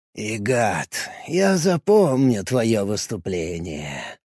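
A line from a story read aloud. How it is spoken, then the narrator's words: Muttered. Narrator (Russian): пробормотал Гоин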